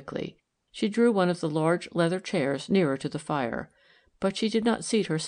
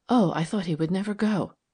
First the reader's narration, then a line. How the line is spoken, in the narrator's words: she said breathlessly